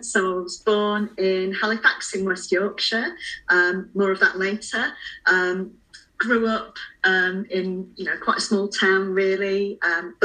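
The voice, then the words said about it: Northern English accent. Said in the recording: “is a northern girl, as you can tell by the accent.”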